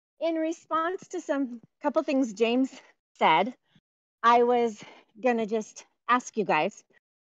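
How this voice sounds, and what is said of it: Out of breath while talking. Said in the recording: “I'm walking, so I'm out of breath.”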